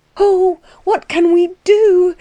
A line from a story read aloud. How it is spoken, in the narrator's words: she cried to the frightened Letty